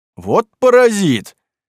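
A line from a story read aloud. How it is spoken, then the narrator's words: Loud laughter. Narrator (Russian): громко засмеялся Кузьма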